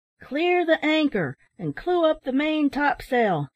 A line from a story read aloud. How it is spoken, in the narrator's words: shouted the mate